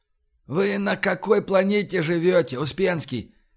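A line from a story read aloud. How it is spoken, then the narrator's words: Near groan. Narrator (Russian): почти застонал Кёник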